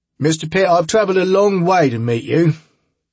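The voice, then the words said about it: Rough working-class English accent. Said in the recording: “The voice had an English accent, not one of those prim and proper Masterpiece Theater ones, but more like someone who had grown up on the tough side of town.”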